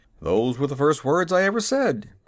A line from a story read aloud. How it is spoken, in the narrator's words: called out the horse